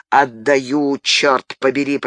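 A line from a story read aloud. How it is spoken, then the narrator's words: Growl. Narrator (Russian): прорычал коннетабль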